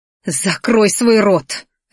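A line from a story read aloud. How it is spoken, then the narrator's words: Snapped harshly. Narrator (Russian): рявкнула Ди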